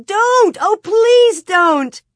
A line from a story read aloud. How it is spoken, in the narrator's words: Minnie was screaming, and Mary Power was begging